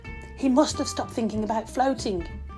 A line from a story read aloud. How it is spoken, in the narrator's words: whispered Jodie